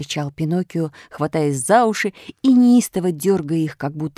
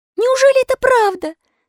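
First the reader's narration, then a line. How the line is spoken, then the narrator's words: Sobbing clown asking. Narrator (Russian): спросил паяц, рыдая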